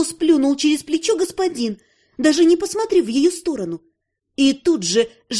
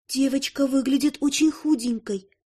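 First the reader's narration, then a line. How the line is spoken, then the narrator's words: Very quiet rustling whisper. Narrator (Russian): Совсем тихо прошелестел голос его спутницы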